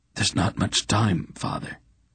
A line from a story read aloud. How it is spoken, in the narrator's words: Olban said, coughing weakly